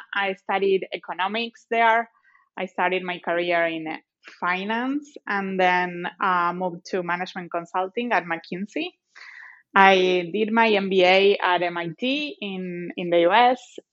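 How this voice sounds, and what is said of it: Argentine Spanish-accented English. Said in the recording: “as you may be able to notice from my accent,⟧ I'm originally from Argentina”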